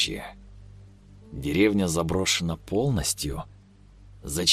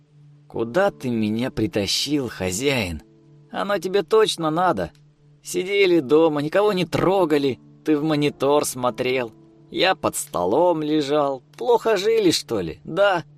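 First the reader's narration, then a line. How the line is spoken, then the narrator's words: Thin mocking squeak. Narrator (Russian): Пропищал Артем тонким издевательским голоском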